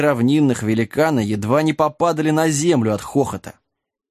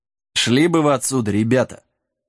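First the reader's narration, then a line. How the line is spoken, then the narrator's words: Gentle advising. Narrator (Russian): ласково посоветовал черный конь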